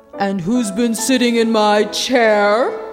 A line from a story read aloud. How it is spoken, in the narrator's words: growled the Father Bear